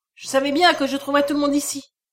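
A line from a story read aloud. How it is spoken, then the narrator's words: Exclaimed. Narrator (French): s'écria-t-il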